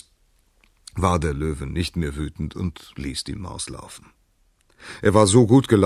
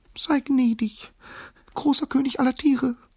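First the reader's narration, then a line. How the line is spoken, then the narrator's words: Squeaky, submissive. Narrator (German): piepste die Maus unterwürfig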